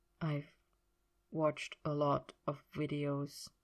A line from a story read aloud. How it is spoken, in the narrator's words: he said quietly